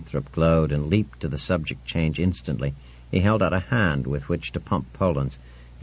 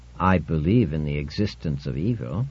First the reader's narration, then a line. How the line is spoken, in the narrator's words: said Winthrop stiffly